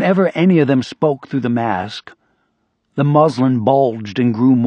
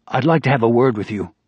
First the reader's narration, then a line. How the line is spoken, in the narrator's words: Rambert said